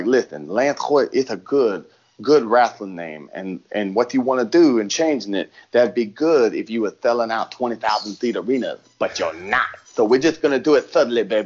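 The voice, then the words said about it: Dusty Rhodes impression. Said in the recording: “Dusty Rhodes impersonation”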